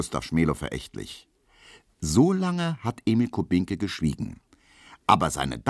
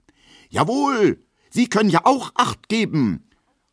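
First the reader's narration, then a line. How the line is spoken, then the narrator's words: Indignant male shout. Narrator (German): ruft in männlicher Entrüstung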